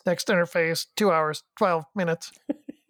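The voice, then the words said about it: Imitated robotic computer voice. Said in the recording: “I love doing the computer voice. That's one I've got down.”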